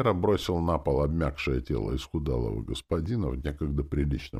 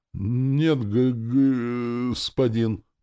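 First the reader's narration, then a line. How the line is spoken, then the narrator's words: Timid babbling soldier. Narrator (Russian): пролепетал солдатик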